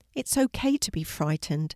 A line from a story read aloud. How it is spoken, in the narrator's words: said Miss Summer gently